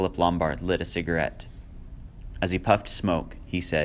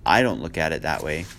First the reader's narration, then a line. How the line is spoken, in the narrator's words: Philip said